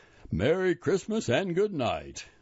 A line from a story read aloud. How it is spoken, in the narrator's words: The driver called out